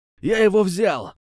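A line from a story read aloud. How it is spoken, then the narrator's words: Shouting, guy. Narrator (Russian): крикнул чувак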